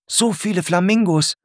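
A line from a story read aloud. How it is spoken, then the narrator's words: Calling out to class. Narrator (German): ruft Murat in die Klasse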